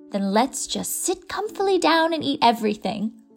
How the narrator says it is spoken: said Miss Lavendar happily

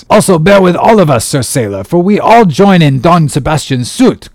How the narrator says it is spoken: cried the company, with exceeding interest

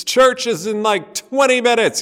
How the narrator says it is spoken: yell

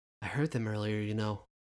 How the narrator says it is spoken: Ezrin murmured

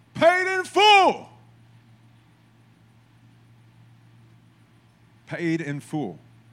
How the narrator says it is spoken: Jesus on the cross, his last words, he yells

